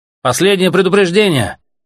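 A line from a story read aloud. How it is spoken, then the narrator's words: Shouted from a well. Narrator (Russian): крикнули из колодца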